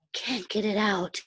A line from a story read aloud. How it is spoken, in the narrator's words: he gasped